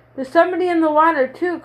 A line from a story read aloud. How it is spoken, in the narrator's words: cried Morris